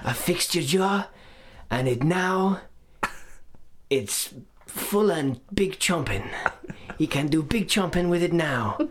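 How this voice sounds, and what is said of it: Breathy put-on European accent. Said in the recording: “I love how it's so close to Bjork. That impression. ... That's just my breathy European. You just say that whenever I do a breathy European accent.”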